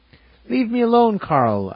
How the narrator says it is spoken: I exclaimed with tears in my eyes

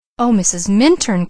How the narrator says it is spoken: exclaimed Leslie

